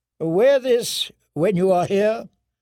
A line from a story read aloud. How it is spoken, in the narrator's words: the priest said